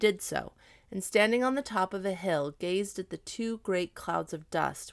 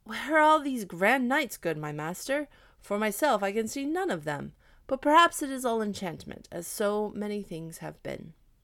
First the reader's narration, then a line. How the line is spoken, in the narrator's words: at last he cried out